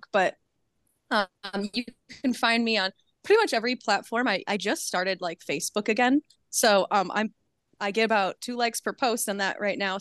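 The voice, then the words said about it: Midwestern American accent. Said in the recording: “you'll hear a good Midwestern accent as I talk”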